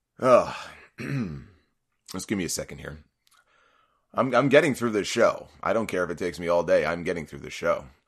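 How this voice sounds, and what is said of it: Strained, failing voice. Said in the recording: “My voice is going. ... it's not sounding too good right now.”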